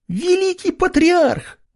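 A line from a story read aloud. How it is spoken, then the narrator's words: Terrified shriek. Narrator (Russian): Взвизгнула до такой степени напуганным голосом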